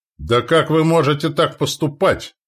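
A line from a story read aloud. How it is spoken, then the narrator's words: Father's roar. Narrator (Russian): взревел мой отец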